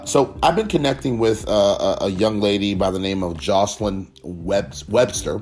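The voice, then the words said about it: Voice in poor condition. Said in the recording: “excuse me for my voice. My voice is not the best as of late”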